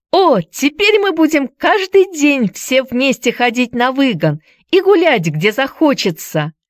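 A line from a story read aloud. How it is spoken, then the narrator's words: Shouting. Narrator (Russian): кричала она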